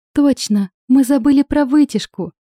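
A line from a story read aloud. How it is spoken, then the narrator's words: Cheerful giggle. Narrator (Russian): весело хихикнула Виола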